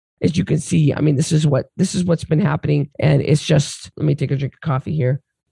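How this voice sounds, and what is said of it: Strained, worsening hoarse voice. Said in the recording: “My voice is getting worse as I'm talking to you.”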